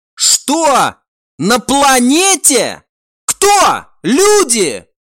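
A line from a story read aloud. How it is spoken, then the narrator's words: Shouted. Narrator (Russian): прокричал друид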